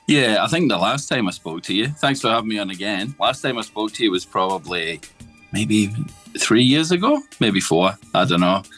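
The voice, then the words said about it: Scottish accent. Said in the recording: “as you can tell from the accent, Scotland originally”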